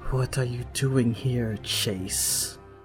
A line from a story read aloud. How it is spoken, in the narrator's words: Lissette asks coldly